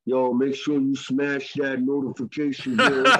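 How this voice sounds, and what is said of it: Imitates another person's voice. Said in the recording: “Let me impersonate another”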